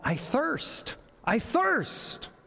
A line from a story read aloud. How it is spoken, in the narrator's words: Jesus cried